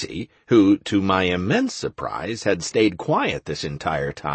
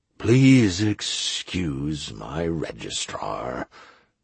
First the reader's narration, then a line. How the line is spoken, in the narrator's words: the mayor said wearily